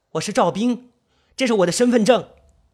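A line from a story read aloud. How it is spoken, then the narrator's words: Sudden loud shout. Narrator (Chinese): 赵兵猛然的醒悟过来，摇晃着大喊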